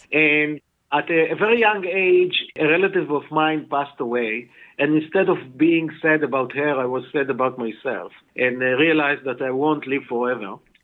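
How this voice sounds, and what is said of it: Israeli-accented English. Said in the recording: “you can hear from my accent that I'm not a Native American. I actually was born and raised in Israel.”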